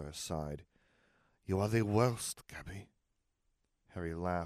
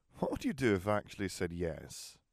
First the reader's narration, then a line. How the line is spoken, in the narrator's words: Gabby giggled